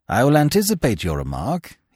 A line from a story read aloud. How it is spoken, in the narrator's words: he said, smiling dryly